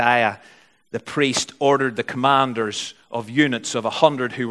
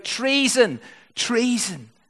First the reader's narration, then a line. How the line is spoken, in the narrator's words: Athaliah tore her robes and cried out